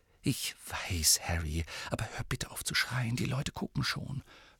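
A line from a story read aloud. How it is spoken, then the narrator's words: Whispered. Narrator (German): flüsterte Hermine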